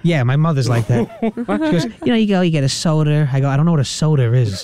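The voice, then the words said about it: Mild New York Brooklyn accent. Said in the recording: “You got the New York accent ... I think you have like closer to a Brooklyn accent ... it's not too crazy”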